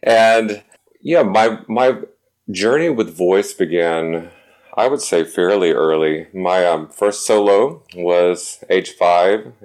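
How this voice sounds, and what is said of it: North Carolina accent. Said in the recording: “I grew up in Winston-Salem, North Carolina. As you can probably hear from my accent, it will come out from time to time.”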